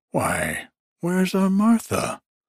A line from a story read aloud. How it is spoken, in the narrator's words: cried Bob Cratchit